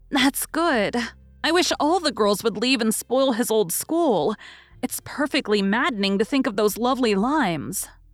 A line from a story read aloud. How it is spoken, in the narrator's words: sighed Amy with the air of a martyr